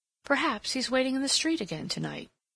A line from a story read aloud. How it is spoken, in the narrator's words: she exclaimed